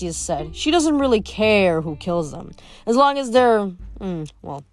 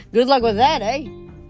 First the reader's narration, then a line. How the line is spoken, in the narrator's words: Frank laughed nervously